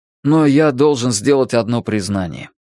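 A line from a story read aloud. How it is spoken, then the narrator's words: Sigh. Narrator (Russian): Тим вздохнул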